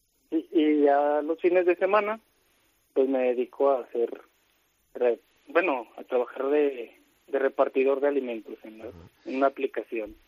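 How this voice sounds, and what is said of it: Mexican Spanish accent. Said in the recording (Spanish): “Tienes un acento tan mexicano”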